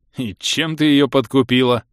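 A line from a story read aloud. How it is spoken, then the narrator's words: Laughing uncontrollably. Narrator (Russian): Не выдержав, засмеялся Ингерт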